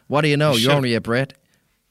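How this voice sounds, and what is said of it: Attempted American accent, sounding Scottish. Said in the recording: “I should have used an American accent there, shouldn't I? ... Oh, was that it? Sorry. I thought it sounded like, I don't know, Scottish.”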